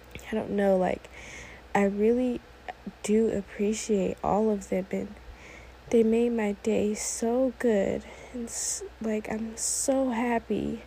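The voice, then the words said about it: Emotional, teary voice. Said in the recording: “I'm getting kind of emotional ... Why am I getting emotional? ... a tear just fell down my eye”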